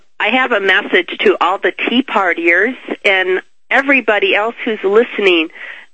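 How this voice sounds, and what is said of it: Congested voice from a cold. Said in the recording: “I have a cold, so pardon my voice.”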